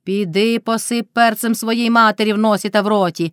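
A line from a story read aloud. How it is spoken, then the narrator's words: Shrieking. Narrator (Ukrainian): верещала Мотря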